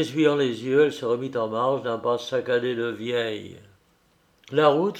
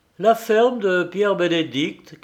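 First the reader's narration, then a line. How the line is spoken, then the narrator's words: Shouting. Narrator (French): cria-t-il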